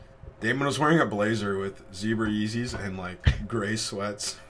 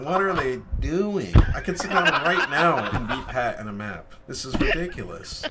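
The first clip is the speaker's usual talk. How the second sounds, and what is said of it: Imitates another person's voice. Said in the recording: “good Damon impersonation”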